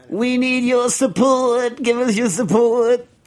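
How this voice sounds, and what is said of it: Old outer-boroughs lady voice imitation. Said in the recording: “you can never judge what someone actually sounds like based on my invitation because that's my like eighty year old lady from like the outer boroughs”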